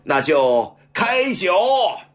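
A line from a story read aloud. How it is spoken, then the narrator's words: Loud roar. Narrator (Chinese): 大声吼道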